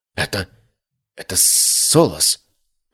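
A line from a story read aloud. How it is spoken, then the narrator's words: Trembling whisper. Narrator (Russian): прошептал он дрожащим голосом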